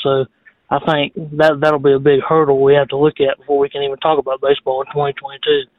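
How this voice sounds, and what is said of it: Heavy Southern US accent. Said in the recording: “heavy Southern accent”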